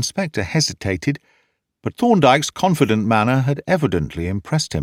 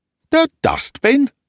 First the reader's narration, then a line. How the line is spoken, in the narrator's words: gasped the inspector